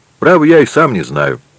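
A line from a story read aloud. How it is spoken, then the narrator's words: Cheerful reply. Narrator (Russian): весело ответил Альбер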